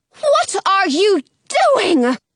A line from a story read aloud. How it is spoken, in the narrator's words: yells